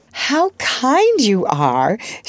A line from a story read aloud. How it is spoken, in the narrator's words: she exclaimed gratefully